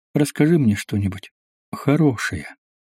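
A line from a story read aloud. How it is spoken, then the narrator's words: Quiet plea. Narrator (Russian): тихо попросила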